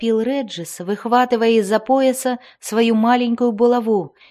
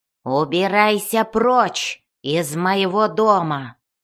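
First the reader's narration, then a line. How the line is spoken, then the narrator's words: Growling. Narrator (Russian): прорычал он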